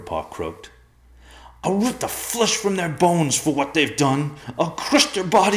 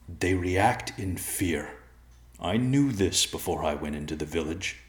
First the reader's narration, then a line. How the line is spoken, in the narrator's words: White Claw said calmly